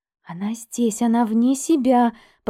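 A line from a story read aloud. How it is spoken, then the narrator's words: Whisper. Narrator (Russian): прошептала Эмили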